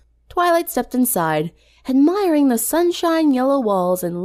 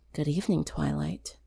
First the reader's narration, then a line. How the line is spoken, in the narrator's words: Sunset whispered